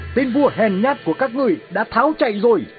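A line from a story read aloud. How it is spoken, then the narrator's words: Loud shout mid-battle. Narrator (Vietnamese): Alexander vừa đánh vừa hét lớn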